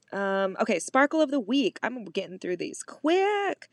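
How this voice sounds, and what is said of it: Talking very fast. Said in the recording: “I'm talking super fast”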